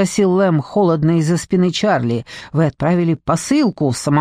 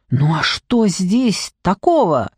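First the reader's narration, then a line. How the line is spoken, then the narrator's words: Exclaimed. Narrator (Russian): воскликнул Хорнер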